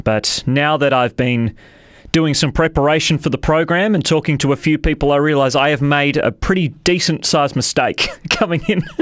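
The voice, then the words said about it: Strained, rough sore-throat voice. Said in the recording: “my voice is sounding a little strange today ... I woke up with quite a sharp sore throat”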